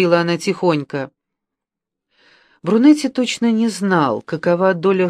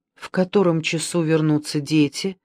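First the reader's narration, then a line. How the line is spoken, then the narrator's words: Plain question. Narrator (Russian): спросил Брунетти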